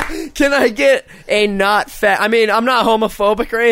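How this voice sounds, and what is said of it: Usual voice. Nothing is said of it.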